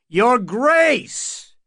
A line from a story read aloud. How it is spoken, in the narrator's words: Dunk said again more loudly